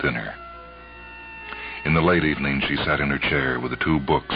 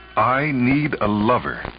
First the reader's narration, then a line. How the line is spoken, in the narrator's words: she said firmly to herself